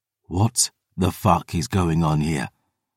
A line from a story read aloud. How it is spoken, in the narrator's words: Philippe whispered